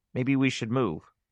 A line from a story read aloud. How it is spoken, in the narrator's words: Maureen said softly